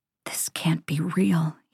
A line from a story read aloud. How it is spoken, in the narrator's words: he whispers